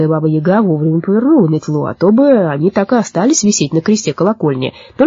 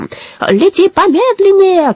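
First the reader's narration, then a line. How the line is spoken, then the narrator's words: Shouted. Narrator (Russian): крикнул Абрахат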